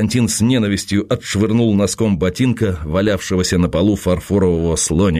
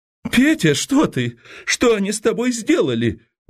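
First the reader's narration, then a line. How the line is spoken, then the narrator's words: Woman shrieking. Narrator (Russian): взвизгнула жена Быкова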